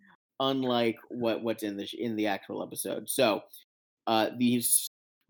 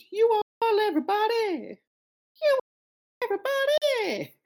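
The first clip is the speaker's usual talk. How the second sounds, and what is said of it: Deliberately awful singing voice. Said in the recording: “do my awful singing voice”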